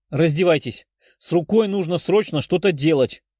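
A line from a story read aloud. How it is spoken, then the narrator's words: Exclaimed. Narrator (Russian): воскликнула зеленоволосая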